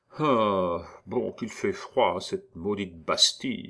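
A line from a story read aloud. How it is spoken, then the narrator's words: Muttered complaint. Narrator (French): murmura-t-il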